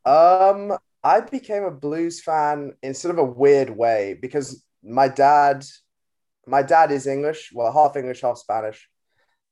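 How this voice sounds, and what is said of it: American accent. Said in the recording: “you're obviously from the States as well, which I'm sure people will hear in your accent”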